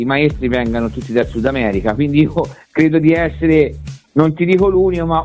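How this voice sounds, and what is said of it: Strong Tuscan Italian accent. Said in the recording (Italian): “l'accento toscano comunque. ... con l'accento molto toscano. ... Molto marcato.”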